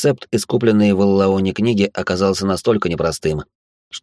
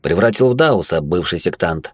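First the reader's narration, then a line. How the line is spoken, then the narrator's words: Calm. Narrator (Russian): спокойно ответил я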